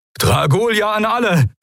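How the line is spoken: Calling out. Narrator (German): rief Helios

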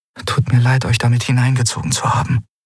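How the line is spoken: Whispered. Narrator (German): flüsterte Endriel

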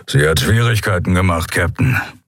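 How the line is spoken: Grumbling. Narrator (German): brummte Graufell

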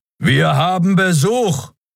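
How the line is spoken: Roar. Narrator (German): Kerus Brüllen

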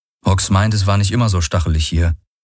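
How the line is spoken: Plain. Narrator (German): sagte Garland

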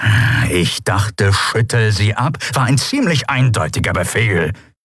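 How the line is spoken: Growled. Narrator (German): knurrte Chasu

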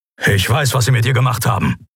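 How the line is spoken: Grumbling. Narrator (German): brummte Keru

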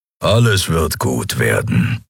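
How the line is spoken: Grumbled. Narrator (German): brummte Keru

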